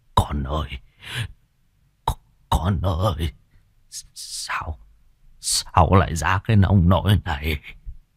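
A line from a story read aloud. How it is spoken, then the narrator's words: Terrified man stammering. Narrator (Vietnamese): Gương mặt của ông trắng bạch cắt không còn giọt máu, lắp bắp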